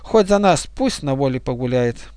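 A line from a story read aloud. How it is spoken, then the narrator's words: Sighing. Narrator (Russian): эта девушка вздохнула и сказала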